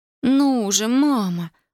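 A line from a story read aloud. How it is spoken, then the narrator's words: Muffled moan. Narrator (Russian): простонала Татьяна, не поднимая головы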